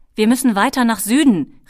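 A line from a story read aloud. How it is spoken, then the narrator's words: Called out. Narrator (German): rief er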